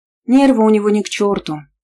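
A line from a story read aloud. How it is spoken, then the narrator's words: Sighing. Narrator (Russian): вздохнула я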